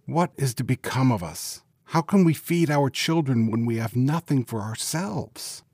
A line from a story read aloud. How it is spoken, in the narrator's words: worrying about his problems, he sighed and said to his wife